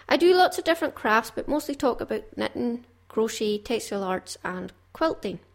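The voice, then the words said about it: Strong Caithness Scottish accent. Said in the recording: “I have quite a strong Caithness accent.”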